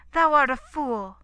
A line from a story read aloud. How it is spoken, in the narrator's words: she cried